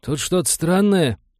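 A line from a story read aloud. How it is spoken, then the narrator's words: Confused report. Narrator (Russian): растерянно доложил он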